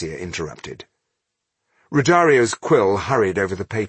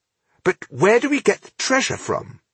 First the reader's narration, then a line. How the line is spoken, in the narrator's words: smiled brightly